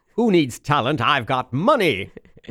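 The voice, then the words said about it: Pretentious old-Hollywood mid-Atlantic voice. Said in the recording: “I sounded like a crazy Kennedy Roosevelt, sort of Katharine Hepburn ... it wasn't really a British accent. It was sort of, you know, a very pretentious ... That early Hollywood elevated speak”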